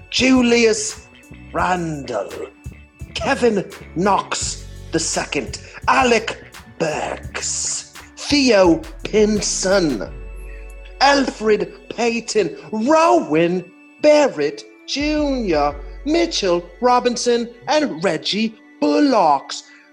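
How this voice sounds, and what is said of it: Terrible put-on British accent. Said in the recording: “Let me throw on a terrible British accent for you and say these names.”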